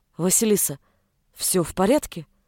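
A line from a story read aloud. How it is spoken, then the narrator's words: Called softly. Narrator (Russian): тихо позвал он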